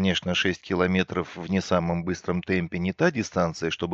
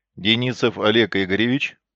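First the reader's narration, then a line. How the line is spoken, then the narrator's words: Official tone, over phone. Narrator (Russian): официальным тоном осведомились на другом конце провода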